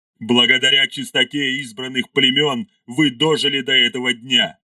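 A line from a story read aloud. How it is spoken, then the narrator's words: Growling. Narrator (Russian): рычал Ардамаил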